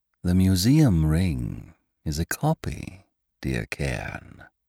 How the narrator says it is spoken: came the huskily musical, hateful voice

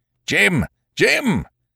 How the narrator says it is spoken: I heard him shouting

